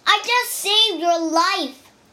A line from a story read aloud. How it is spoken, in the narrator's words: he cried